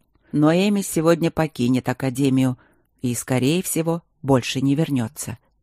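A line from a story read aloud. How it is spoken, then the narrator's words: Calm. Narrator (Russian): спокойно сообщил он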